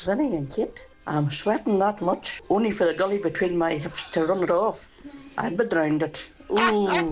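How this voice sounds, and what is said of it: Strong regional accent. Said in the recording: “Not in that accent.”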